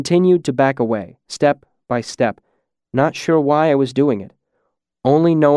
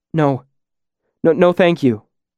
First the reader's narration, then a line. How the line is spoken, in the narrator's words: stammered